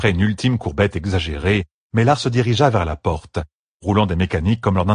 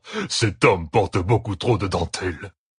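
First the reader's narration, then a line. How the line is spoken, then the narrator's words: Grumbled. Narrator (French): grogna-t-il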